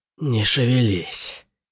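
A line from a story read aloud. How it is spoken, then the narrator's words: Hoarse, spitting blood. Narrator (Russian): хрипло сказала Мирин, выплевывая сгустки крови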